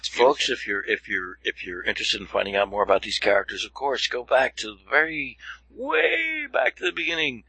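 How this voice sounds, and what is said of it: Exaggerated podcast host voice. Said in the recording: “am I putting on my, I'm doing a podcast voice now? Yeah, I think I am.”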